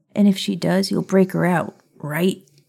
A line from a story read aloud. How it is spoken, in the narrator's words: Scorpius asked nervously